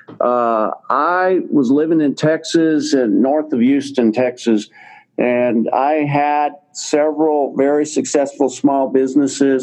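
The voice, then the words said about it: Slight Texas drawl. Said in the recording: “my little bit of my Texas drawl that I've got left”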